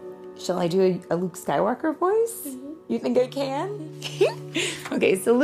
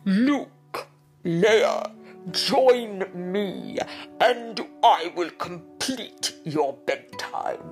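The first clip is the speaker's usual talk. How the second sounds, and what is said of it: Muffled deep villain voice. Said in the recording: “Darth Vader wears a helmet, doesn't he? ... So his mouth is a little bit covered with something. So let's see if I can do his voice.”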